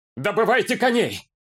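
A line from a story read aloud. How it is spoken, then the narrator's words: Barked. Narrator (Russian): рявкнул гондорец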